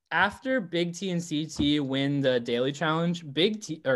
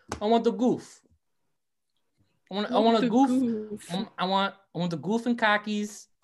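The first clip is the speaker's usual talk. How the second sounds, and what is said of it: Weak attempt at Boston accent. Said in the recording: “I can't do a Boston accent at all. I'm so sorry. I tried.”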